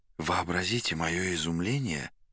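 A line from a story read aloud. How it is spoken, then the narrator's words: Guest whispering. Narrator (Russian): шептал гость в черной шапочке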